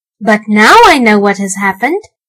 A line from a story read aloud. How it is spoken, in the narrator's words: Archie exclaimed